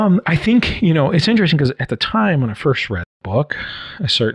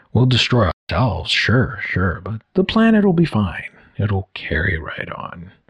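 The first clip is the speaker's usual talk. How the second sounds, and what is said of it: Poor Jeff Goldblum impression. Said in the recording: “terrible Jeff Goldblum impression”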